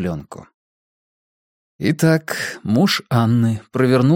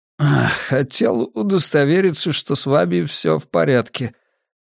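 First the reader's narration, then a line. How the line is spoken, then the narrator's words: Hoarse voice from a cold. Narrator (Russian): послышался хриплый от простуды голос детектива Анджели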